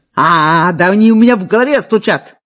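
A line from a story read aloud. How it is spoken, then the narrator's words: Yelling, muffled under blanket. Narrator (Russian): орал Гришуня, накрываясь одеялом с головой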